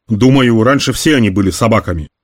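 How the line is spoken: Plain. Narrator (Russian): сказал ей Лабин

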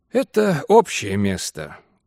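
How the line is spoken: Tired voice. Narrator (Russian): устало произнес мистер Саттерсвейт

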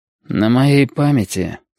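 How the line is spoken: Dull, muffled voice. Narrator (Russian): сказал он глухо

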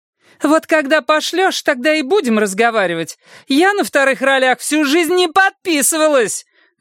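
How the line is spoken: Squeal. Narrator (Russian): визгнула та

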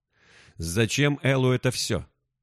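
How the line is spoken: Plain question. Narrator (Russian): спросил Карвалис

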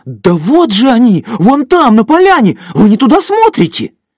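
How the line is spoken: Shout trembling with excitement. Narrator (Russian): чей-то дрожащий от возбуждения голос крикнул

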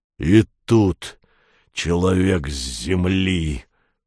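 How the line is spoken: Hoarse croak, one of two heads. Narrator (Russian): Прохрипела левая голова двуглавого Юла

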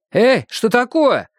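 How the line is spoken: Frightened shout. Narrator (Russian): закричал испуганный официант

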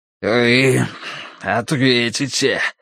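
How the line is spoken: Wheeze. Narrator (Russian): просипел он

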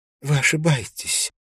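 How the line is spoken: Smiling through tears. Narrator (Russian): сказала Силья, улыбаясь сквозь слезы

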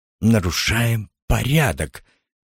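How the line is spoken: Unsure, dejected whisper. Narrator (Russian): неуверенно прошептал лейтенант упавшим голосом

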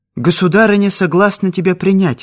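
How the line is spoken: Joyful announcement. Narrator (Russian): радостно объявила она

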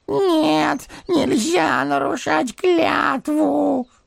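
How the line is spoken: Whimpering. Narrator (Russian): хныкал первый голос

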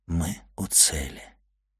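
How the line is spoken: Sad whisper. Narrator (Russian): прошептал путешественник с какой-то непередаваемой грустью

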